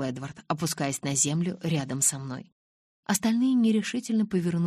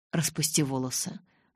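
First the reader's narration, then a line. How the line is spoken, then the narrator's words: Calm request. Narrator (Russian): спокойно попросил Эдвард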